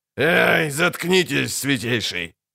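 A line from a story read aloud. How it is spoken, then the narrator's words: Snarled. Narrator (Russian): рыкнул Шелдон Скак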